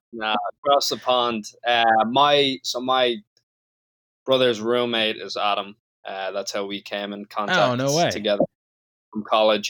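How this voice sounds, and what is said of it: Slight Irish accent. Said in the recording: “I'm from Dublin, Ireland... it sounded like you have a bit of an accent”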